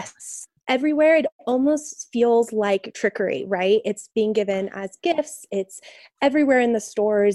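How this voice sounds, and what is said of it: Voice affected by a cold. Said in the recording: “you can even hear it in my voice... warding off some of the cold... feeling under the weather”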